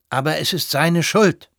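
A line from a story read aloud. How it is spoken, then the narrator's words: Consul nearly loud, then lowered. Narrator (German): rief der Konsul beinahe laut und mäßigte dann seine Stimme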